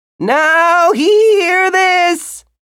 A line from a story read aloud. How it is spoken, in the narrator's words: he declared, and from all around him, his voice amplified